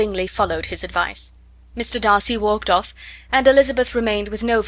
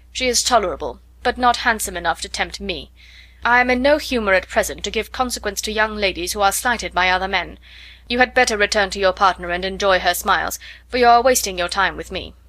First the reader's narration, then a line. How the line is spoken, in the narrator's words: coldly said